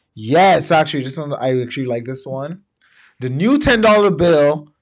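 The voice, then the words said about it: Excited yelling. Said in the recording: “yelling? I don't know why I'm yelling, man. Because I'm hype about this.”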